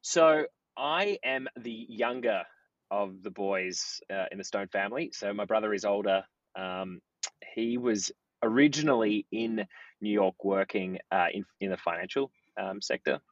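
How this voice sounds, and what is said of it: Australian accent. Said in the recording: “knowing your accent, you guys are from Australia”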